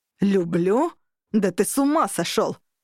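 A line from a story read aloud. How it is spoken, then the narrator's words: Angry roar. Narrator (Russian): рявкнул Дернут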